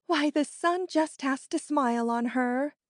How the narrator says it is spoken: they would exclaim

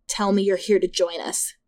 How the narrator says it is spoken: said in my ear

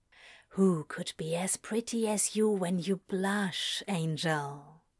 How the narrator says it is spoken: He whispered against his mouth

